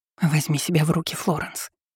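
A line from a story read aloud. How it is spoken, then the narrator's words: Whispered. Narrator (Russian): шептала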